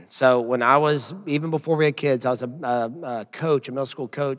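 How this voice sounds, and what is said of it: Hoarse, worn-out voice. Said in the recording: “if you hear my voice right now, my voice is shot because I'm coaching my third graders boys basketball team. And I do a lot of yelling”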